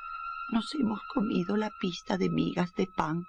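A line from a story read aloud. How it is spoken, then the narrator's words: Sad singing. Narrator (Spanish): cantaban tristemente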